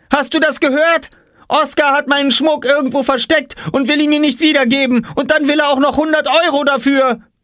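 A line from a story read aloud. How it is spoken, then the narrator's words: Screaming. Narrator (German): schrie Jule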